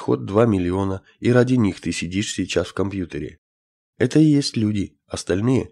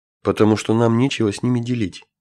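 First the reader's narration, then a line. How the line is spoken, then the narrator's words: Plain. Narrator (Russian): ответил командующий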